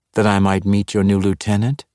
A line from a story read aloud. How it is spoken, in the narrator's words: she answered coldly